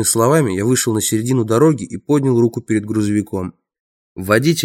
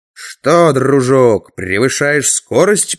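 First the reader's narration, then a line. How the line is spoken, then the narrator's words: Growling. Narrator (Russian): прорычал я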